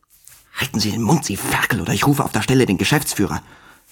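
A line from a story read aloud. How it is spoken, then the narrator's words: Hiss from two rows behind. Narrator (German): zischte eine Stimme zwei Reihen hinter uns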